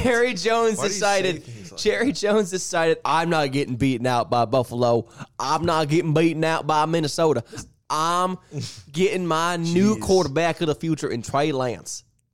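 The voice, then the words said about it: Put-on Texas accent. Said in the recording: “That was a tough accent. ... That was a tough Texas accent you got there.”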